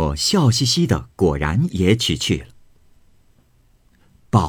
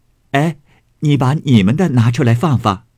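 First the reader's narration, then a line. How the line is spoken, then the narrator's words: Laughing. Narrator (Chinese): 向翠墨笑道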